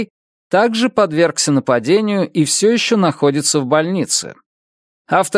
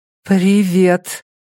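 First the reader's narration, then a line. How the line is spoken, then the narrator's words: Very tense voice. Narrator (Russian): произнесла она крайне напряженным голосом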